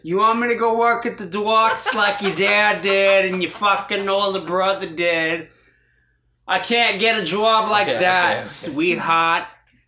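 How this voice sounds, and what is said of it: Loud put-on trashy Boston accent. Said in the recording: “the trashy Boston accent ... Boston accent ... Stop yelling.”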